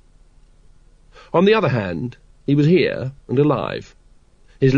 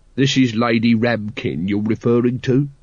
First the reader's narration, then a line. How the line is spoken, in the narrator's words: said Vimes, coldly